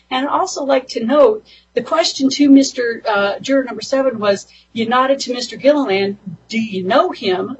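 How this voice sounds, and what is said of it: Speaking very fast. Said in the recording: “You're talking so fast.”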